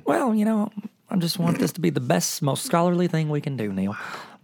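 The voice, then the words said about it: Super twangy put-on accent. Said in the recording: “my voice got super twangy”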